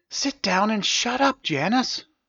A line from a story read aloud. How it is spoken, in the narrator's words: hissed Stavius